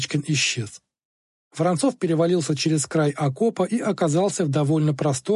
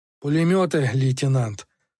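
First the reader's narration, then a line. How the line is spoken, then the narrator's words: Angry, defensive. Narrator (Russian): зло сказал Численко, будто оправдываясь перед ним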